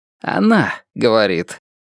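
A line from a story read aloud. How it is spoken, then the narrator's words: Slightly hoarse. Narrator (Russian): поправляет он меня хрипловатым голосом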